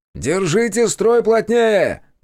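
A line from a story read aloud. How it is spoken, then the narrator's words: Shouted command. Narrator (Russian): крикнул я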